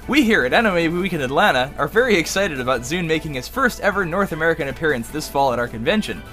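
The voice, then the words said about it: Dramatic narrator voice. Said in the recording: “I'll put on my best narration voice. ... It's dramatic.”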